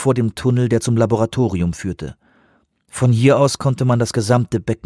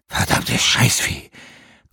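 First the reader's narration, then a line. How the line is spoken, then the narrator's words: Panting. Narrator (German): keuchte Pieck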